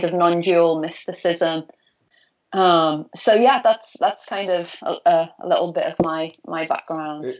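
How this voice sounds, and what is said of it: Liverpool accent. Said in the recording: “for listeners hearing your accent ... I'm from Liverpool ... the northwest of England”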